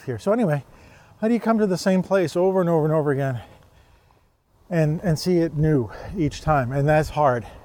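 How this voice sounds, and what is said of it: Slightly out of breath. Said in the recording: “I'm a little out of breath because I'm walking up hills”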